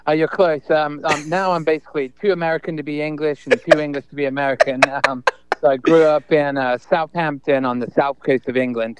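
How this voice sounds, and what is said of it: English accent with American touches. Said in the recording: “That sounds a little bit like you have an accent ... what accent am I hearing? ... a southern accent, but maybe Southampton”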